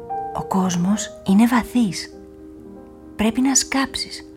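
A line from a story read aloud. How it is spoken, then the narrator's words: Earth whispering. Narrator (Greek): ψιθύρισε το χώμα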